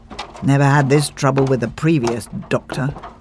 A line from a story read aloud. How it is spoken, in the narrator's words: he grumbled